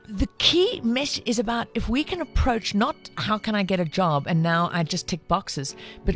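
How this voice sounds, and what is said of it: South African accent. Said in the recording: “Is this the South African chick ... they don't mind this accent”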